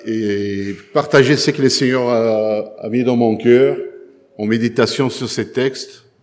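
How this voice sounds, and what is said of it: Noticeable accent, sometimes hard to follow. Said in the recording (French): “mon accent parfois c'est pénible”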